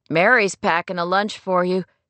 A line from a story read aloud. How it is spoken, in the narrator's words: Skip announced with a wry chuckle